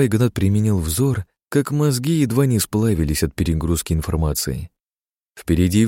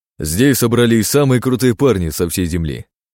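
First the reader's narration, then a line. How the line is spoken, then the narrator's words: Big man, loud. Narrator (Russian): громко сказал здоровяк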